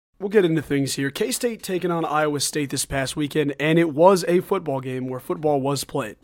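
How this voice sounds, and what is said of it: Sick voice, higher than normal. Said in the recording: “my voice is sounding a little bit off, a little bit higher than normal. I've been really sick this week”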